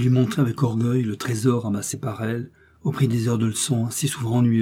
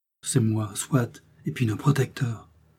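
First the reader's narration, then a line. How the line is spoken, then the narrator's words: Gentle modest remark. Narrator (French): fit remarquer doucement la modeste Marthe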